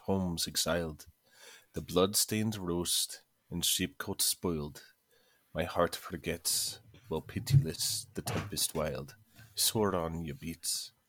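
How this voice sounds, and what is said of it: Attempted Scottish accent with trilled r. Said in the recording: “I tried to get the trill in there, um, which is kind of hard coming from an American accent ... the Scottish accent is kind of hard”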